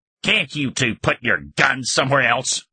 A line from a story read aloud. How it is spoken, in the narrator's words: growled